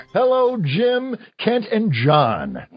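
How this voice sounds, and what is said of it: Radio announcer style voice. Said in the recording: “That's my radio voice.”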